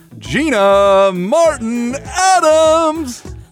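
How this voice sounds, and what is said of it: Booming stadium announcer voice. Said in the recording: “my stadium voice”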